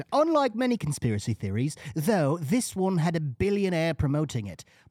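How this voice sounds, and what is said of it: Put-on British accent. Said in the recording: “I'll say this with a British accent.”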